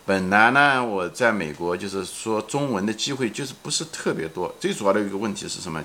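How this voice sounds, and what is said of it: Heavily accented, non-standard Mandarin. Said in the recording (Chinese): “虽然我这个普通话说的很不好，我这口音也很重”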